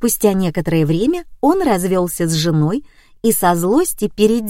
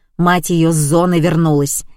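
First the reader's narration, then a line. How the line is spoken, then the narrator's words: Barked. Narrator (Russian): рявкнула Раиса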